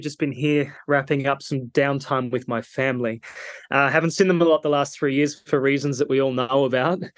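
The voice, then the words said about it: Australian accent. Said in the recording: “you can probably hear in my voice, I'm Australian.”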